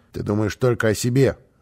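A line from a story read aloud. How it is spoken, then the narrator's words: Stern rebuke. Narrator (Russian): строго осадил его босса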